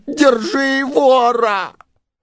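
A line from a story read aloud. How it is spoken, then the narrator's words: Shout after someone. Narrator (Russian): а четвертый закричал мне вслед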